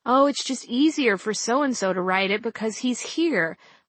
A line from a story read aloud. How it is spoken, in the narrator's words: was usually how editors would explain it to me when I whined